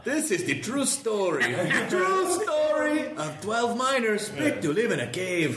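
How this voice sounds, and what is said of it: Put-on Mexican accent. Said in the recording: “Why do they have Mexican accents? ... Because that's the only one I can do.”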